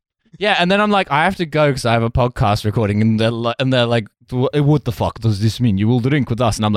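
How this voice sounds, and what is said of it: Usual voice. Nothing is said of it.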